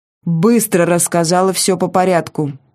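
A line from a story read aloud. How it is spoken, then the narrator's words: Barking commanding tone. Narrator (Russian): рявкнул он командным тоном, каким может обладать только человек, привыкший тиранить безропотных подчиненных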